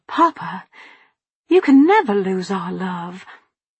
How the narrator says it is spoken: With a gasp I said

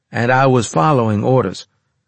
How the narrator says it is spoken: I said evenly

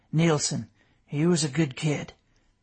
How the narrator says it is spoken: the man gently said

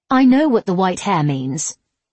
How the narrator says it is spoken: N snapped

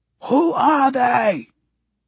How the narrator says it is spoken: Pai screams

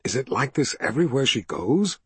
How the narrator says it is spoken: Richard whispered to Zed

